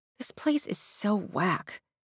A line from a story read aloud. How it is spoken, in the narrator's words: she murmured to Cecile